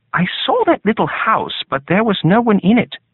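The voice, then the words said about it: British accent. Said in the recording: “A very black man with a British accent.”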